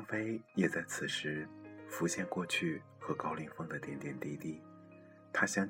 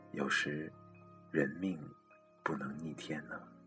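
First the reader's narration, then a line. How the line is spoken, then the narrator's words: Sighing, flat and calm. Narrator (Chinese): 张飞言谈之中频频叹气，并淡淡的说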